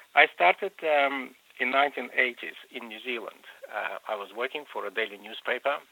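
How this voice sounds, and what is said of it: Slight Russian accent in English. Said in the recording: “a slight, if it's Russian accent in your Australian English”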